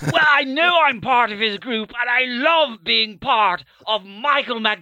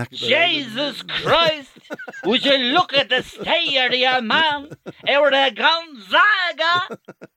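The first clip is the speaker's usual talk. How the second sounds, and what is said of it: Put-on Dublin accent. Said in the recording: “Have you ever heard my Dublin accent? ... Do you know he does a great Dublin accent?”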